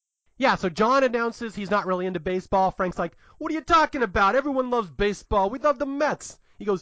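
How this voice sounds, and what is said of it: Usual voice. Nothing is said of it.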